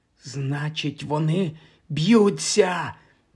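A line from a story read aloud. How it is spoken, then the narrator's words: Whispering. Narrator (Ukrainian): прошепотів Майкл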